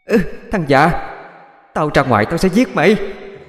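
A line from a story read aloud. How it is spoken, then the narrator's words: Shout from inside. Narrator (Vietnamese): Bên trong vang lên tiếng hét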